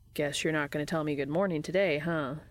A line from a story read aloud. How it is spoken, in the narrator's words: Dean asks